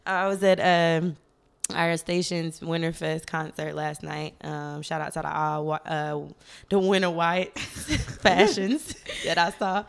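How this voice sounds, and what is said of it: Atlanta accent. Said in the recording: “The Atlanta accent switch up be so real”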